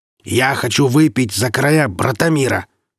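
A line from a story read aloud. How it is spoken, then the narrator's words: Merchant barking. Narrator (Russian): рявкнул купец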